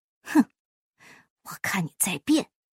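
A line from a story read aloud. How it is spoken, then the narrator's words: Drowsy muttering. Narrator (Chinese): 他稀里糊涂的喃喃自语道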